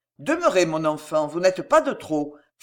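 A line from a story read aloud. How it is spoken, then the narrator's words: Brisk, quick. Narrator (French): fit-il vivement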